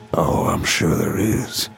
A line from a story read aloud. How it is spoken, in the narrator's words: said in his gravelly voice